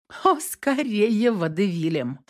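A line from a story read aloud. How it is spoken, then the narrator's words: Clarifying. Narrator (Russian): уточнила Наташа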